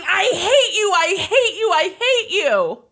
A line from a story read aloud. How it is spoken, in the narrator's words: Lindsay, the 16-year-old daughter, … screaming